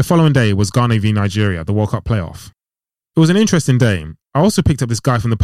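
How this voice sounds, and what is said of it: Usual voice. Nothing is said of it.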